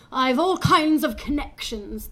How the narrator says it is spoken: the bloated, balding man cried as he was dragged away

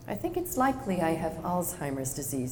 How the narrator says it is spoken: he said

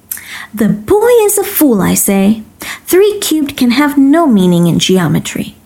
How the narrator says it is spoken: exclaiming

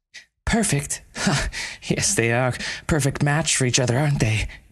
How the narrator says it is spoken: Meilan interrupted again bitterly

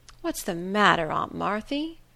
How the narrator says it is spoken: said in a sympathizing tone

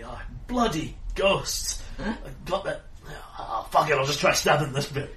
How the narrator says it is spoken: Corwin grunts slightly

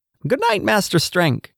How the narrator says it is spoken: said with an excited little screech

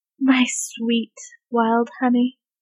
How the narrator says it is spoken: Bradley murmured

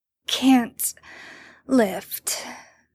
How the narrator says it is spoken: Sam grunts out in agreement

